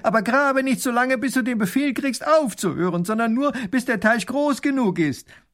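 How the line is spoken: Grand duke calling after someone. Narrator (German): Der Großherzog ruft ihm noch nach

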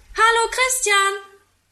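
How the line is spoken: Calling from a window. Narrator (German): ruft er aus dem Fenster

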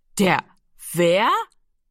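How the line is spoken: Loud laugh. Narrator (German): Giro lachte laut auf

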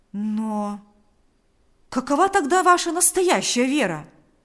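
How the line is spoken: Exclaiming. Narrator (Russian): воскликнул Павел

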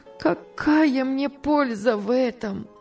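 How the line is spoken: Sobbing reply. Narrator (Russian): отвечала она, рыдая

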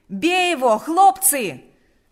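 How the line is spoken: Shouting. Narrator (Russian): снова закричал Панас

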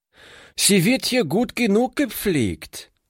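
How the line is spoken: Calling out. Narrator (German): rief sie

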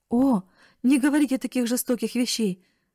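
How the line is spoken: Exclaiming. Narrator (Russian): воскликнула бедная Нетти

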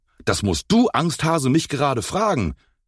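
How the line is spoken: Angry shout. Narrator (German): rief Enzo wütend

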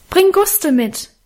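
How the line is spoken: Calling after someone. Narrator (German): rief ich ihm in die Dunkelheit nach

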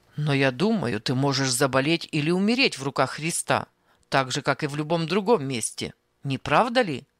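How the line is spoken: Rude interruption. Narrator (Russian): Грубо прерывал он

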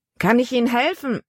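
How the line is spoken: Calling down from above. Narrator (German): Von der Reling aus rief er herunter

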